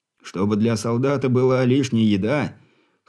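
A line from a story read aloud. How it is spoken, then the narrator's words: Short laugh. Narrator (Russian): хохотнул Грибский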